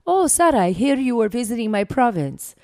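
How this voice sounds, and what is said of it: Imitated accent of the prime minister. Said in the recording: “I probably won't have a very good accent, but I'll try.”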